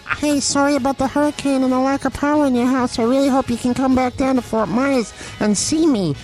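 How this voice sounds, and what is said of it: Voice for a talking toothbrush. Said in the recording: “I can do a voice for Quip.”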